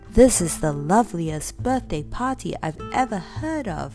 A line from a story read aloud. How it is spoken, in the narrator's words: said Beth happily